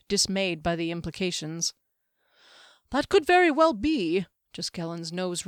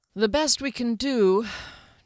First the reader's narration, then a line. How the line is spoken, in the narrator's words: Derry sighed